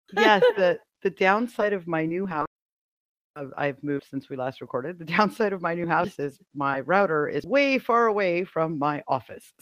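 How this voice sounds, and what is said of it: Stuffy voice that cuts in and out. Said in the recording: “I have a head cold, and so my voice goes in and out.”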